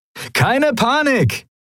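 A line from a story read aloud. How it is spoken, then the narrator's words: Cheerful call. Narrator (German): rief Sephiron seinen Kumpanen in bester Laune zu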